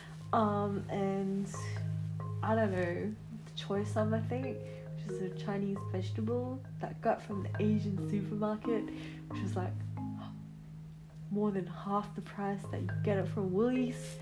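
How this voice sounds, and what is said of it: Put-on accent. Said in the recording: “I don't know why I'm doing accent.”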